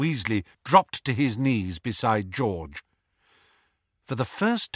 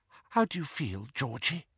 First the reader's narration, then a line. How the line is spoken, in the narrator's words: whispered Mrs